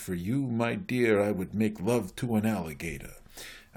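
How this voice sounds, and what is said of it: Put-on Groucho Marx accent. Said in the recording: “Groucho Marx, who said ... I'm sorry for my accent”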